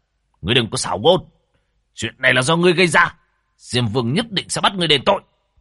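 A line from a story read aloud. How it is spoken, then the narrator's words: Angry. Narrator (Vietnamese): Quỷ sử tức giận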